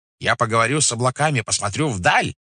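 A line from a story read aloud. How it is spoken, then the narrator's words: Shouting. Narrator (Russian): кричала она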